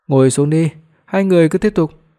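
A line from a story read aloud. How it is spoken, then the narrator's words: Cold scornful laugh. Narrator (Vietnamese): Hoắc Phi Đoạt cười nhạt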